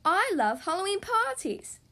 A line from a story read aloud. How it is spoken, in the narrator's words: shouts Peppa